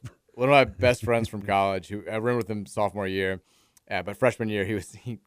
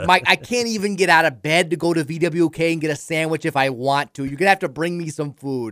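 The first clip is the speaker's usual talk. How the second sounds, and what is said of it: Put-on thick Midwestern accent. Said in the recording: “he has this thick Midwestern accent ... the accent's not helping”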